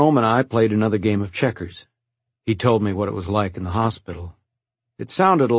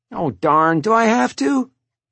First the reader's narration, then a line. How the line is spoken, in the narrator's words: He whined